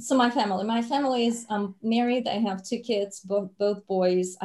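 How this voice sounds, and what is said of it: Speaks with a noticeable accent. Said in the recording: “I love your accent. you should not worry about your accent at all. It's a fantastic accent”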